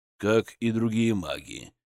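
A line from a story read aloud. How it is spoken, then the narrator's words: Quiet remark. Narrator (Russian): негромко заметил Зотов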